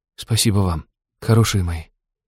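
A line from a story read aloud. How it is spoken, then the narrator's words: Quiet. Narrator (Russian): сказал тихо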